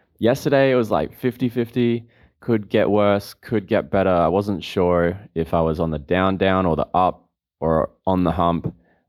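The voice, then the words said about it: Voice slightly off from illness. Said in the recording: “As you can probably tell, my voice is still a little bit off, and I'm still recovering”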